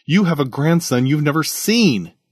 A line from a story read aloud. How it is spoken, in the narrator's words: he exclaimed